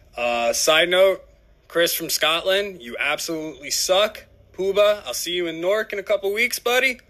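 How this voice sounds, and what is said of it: New Jersey accent. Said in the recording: “love the Jersey dialect. Can't get enough of it.”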